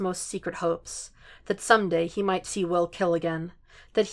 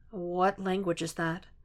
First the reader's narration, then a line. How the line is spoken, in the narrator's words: Will murmurs